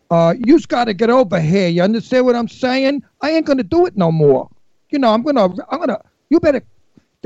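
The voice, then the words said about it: Exaggerated Brooklyn accent, dim cop. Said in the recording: “I played a cop from Brooklyn ... we need a Brooklyn accent ... I really made him a stupid cop, and I did spoke like this.”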